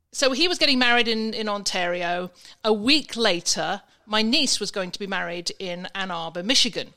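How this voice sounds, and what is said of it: English accent. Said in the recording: “as you know, from my accent, you can probably understand I was in England”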